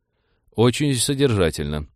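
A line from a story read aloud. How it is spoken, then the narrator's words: Sigh. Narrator (Russian): вздохнул капитан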